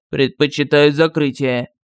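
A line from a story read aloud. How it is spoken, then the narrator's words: Gloomy admiral. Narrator (Russian): мрачно сказал адмирал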